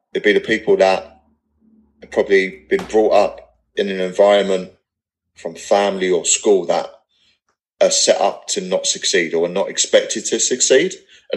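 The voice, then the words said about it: Non-posh English accent. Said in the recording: “like you can hear from my accent, I'm not posh Englishman”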